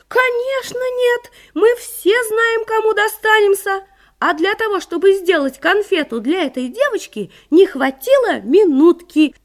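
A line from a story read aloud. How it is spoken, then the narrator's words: Chorus of shouts. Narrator (Russian): все конфеты дружно закричали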